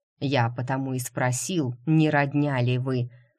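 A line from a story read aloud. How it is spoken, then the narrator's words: Scoffing. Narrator (Russian): хмыкнул главный лекарь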